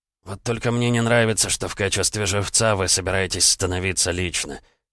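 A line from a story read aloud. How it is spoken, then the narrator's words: Displeased mutter. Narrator (Russian): недовольно пробурчал Макаров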